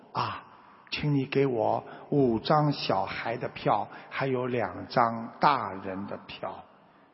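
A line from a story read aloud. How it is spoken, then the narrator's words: Low-voiced father. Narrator (Chinese): 父亲低声地说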